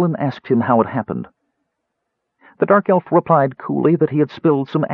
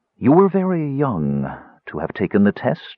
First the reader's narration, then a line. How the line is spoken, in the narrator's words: Raistlin said abruptly in his soft voice